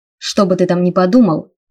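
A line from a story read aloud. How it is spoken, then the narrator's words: Menacing growl. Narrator (Russian): угрожающе прорычал Райнер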